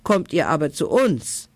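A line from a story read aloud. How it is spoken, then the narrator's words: Wild group shouting. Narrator (German): rief die wilde Bande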